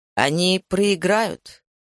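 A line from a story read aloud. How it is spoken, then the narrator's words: Hoarse but firm. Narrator (Russian): голос Нуры, хоть и хрипловатый, звучал твердо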